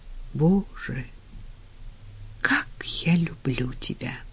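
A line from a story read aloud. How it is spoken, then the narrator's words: Whispered. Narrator (Russian): прошептал он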